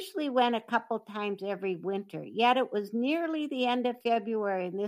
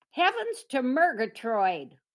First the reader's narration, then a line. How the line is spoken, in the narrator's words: Rose hollered